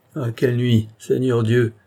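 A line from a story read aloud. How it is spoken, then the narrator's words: Woman whimpering cry. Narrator (French): s'écria une femme en pleurnichant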